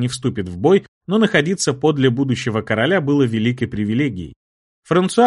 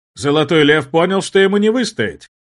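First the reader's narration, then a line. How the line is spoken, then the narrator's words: Loud, smiling. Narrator (Russian): Улыбаясь, громко произнес барон Луи де Рошан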